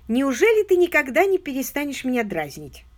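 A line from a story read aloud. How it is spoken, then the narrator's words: Embarrassed exclamation. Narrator (Russian): воскликнула, зардевшись от смущения, миссис Кэрри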